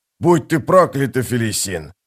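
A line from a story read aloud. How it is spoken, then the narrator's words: Growl. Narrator (Russian): зарычал бывший жрец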